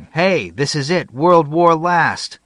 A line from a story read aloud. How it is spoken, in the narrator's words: everyone was yelling